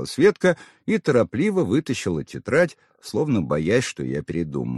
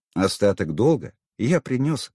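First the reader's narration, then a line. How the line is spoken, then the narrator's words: Calm, conciliatory. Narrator (Russian): спокойно ответил я, чтобы не раздувать конфликт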